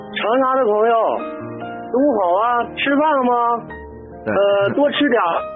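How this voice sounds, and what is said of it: Northeastern Chinese dialect greeting. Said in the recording (Chinese): “用东北话特有的方式来打打招呼”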